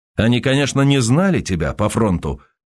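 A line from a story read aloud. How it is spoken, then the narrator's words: Insistent and sharp. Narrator (Russian): все так же настойчиво и резко проговорил Сергей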